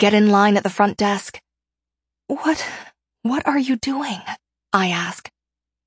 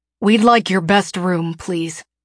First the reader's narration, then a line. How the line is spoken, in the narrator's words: Finn says